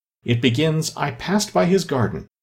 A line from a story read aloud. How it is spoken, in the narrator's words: she went on in a trembling voice